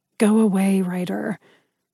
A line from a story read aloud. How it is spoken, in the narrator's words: I growled